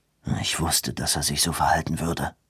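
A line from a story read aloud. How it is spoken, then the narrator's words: Murmur. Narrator (German): murmelte Corsay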